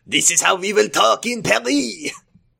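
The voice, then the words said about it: Put-on French accent. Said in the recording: “just starts doing a French accent.”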